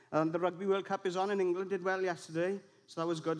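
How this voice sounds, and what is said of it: Welsh accent from Swansea. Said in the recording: “Please join us in Swansea. If you're from England or elsewhere, and you don't understand the accent”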